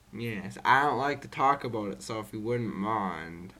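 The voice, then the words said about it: Soft-spoken French accent. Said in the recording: “where did that accent come from? ... My parents are from France ... I'm also very soft-spoken ... you inherited this accent”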